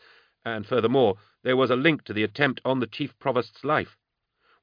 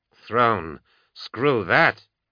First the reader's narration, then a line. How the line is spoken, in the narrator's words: Kiss muttered